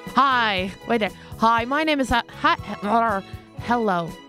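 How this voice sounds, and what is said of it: Briefly slips into an American accent. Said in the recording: “I don't know why I'm sounding American. ... This is my actual accent.”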